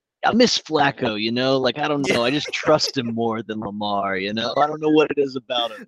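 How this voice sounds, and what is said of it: Exaggerated working-class Baltimore accent. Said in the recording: “He's from Baltimore and he does like the impersonation of Baltimore white trash.”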